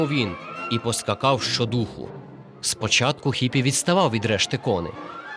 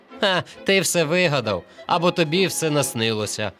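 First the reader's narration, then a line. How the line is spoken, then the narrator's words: Laughing group. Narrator (Ukrainian): сміялися вони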